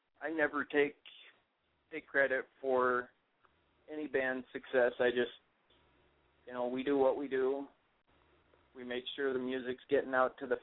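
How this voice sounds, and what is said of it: Minnesota accent. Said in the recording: “I have a Minnesota accent”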